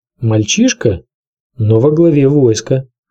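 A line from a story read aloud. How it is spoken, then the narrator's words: Plain. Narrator (Russian): сказал Варис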